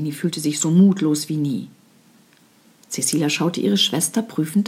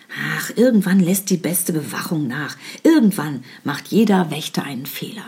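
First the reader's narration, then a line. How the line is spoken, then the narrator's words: Plain. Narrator (German): sagte Cecilia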